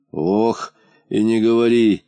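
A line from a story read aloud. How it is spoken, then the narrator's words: Sighing. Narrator (Russian): вздохнул полботинка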